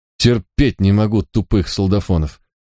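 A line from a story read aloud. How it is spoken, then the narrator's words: Gruff mutter. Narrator (Russian): буркнул в ответ мой помощник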